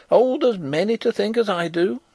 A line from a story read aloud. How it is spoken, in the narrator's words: cried the old woman stubbornly